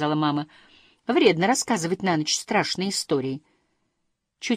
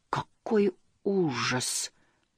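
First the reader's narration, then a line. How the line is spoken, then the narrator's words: Slow speech. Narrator (Russian): медленно произнес Муми-тролль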